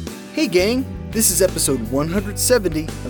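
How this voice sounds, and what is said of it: Usual voice. Nothing is said of it.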